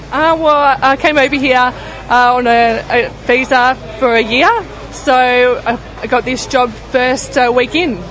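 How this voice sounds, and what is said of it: Australian accent. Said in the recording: “do I detect a slight New Zealand accent though, or is it Australian? ... Close, Australian.”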